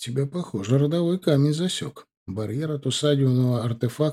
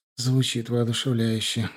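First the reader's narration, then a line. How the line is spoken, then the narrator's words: Sighed. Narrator (Russian): вздохнул Илор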